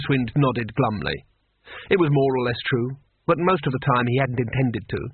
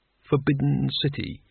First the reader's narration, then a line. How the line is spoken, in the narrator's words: he murmured